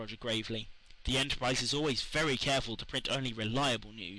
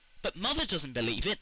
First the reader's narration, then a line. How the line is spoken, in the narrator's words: cried Felicity